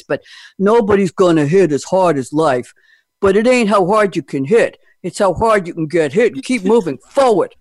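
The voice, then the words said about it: Imitates another person's voice. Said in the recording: “in a Stallone voice ... I'm going to really fail on this ... I should do it in a French Stallone voice”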